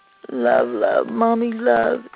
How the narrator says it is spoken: Dozy mumbled

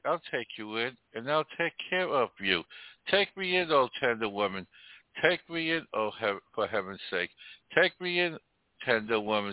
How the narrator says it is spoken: sighed the snake

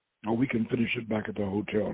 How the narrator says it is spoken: Doc said

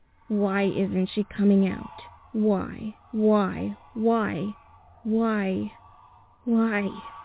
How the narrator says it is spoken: He muttered this

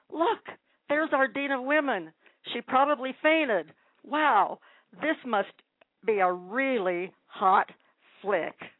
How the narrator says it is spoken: someone standing in the ticket line shout

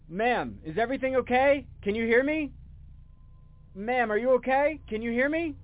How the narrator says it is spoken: I felt really skeptical about leaving her there, so I shouted

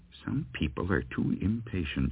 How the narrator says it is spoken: she muttered

